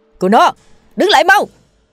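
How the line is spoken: Loud shout while running. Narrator (Vietnamese): Cha tôi vừa đuổi theo vừa hét lớn

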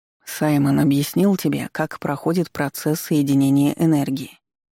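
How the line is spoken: Calm clarifying. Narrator (Russian): спокойно уточнил старейшина

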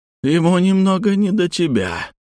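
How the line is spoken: Hoarse creature rasp. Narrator (Russian): прохрипела тварь

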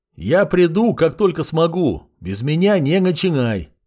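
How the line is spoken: Shout. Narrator (Russian): крикнул я

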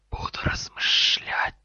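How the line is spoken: Hissed. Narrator (Russian): прошипел Гарри

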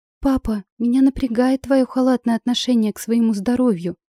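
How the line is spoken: Indignant exclamation. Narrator (Russian): с негодованием воскликнула Виола

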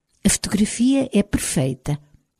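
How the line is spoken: Murmured. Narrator (Portuguese): murmurou Mary Beth

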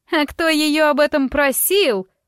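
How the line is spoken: Shrill squeal. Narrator (Russian): взвизгнула госпожа Норгентаундон

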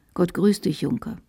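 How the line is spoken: Quiet. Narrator (German): Dann sagte er leise

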